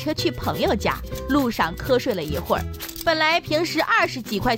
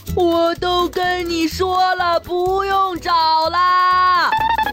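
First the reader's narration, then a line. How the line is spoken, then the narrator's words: Shouting. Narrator (Chinese): 大头冲司机喊道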